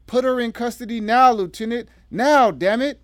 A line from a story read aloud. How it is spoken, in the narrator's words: the deputy district attorney screamed